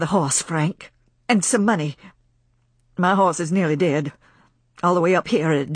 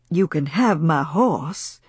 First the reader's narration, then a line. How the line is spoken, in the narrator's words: said Frank calmly